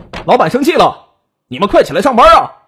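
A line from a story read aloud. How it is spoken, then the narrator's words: Annoyed shouting boys. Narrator (Chinese): 两个男孩…气恼的…没好气的喊他们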